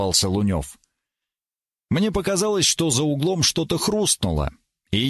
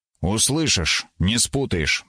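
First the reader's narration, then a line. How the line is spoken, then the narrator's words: Stern promise. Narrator (Russian): пообещал я суровым голосом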